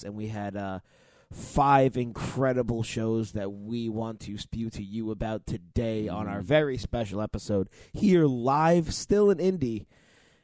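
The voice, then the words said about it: Hoarse, strained worn-out voice. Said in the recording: “Our voices are absolutely destroyed because we just got done with the collective weekend in Indianapolis... Me the worst”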